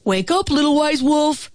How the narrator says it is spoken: shouted the bear

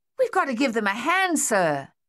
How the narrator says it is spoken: Thaddeus yelled

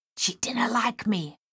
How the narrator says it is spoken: Miss Waits whispered

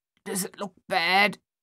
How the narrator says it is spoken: Thaddeus asked, his voice thick and halting

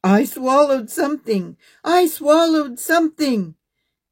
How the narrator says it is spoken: shouted

